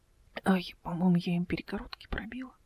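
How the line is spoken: Whisper. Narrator (Russian): прошептала она

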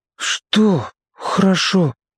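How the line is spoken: Forced out. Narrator (Russian): выдавил Сеня

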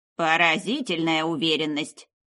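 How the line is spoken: Scoffing. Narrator (Russian): хмыкнула

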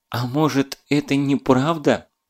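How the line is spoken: Desperate pleading question. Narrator (Russian): Александра Федоровна в последней отчаянной попытке умоляющим голосом спросила

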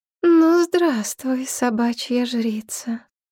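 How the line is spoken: Sing-song purring female voice. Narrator (Russian): Голос у незнакомки был певучий, мурлыкающий

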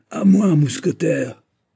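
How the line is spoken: Booming thunderous voice. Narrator (French): dit-il d'une voix de géant, d'une de ces voix qui dominent le canon, la mer, la tempête

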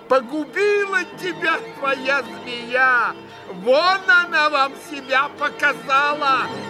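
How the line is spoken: Shouting, shaking with rage. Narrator (Russian): прокричала она, сотрясаясь от злобы

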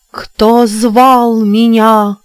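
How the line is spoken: Sepulchral proclamation from depths. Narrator (Russian): провозгласила она из глубины вод за могильным голосом

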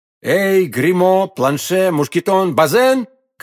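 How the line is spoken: Four shouting together. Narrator (Russian): крикнули все четверо

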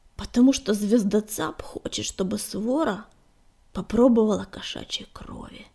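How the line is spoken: Hoarse exhale. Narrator (Russian): хрипло выдохнул он наконец

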